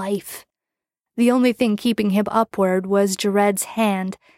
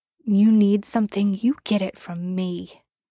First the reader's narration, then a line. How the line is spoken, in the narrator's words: he growled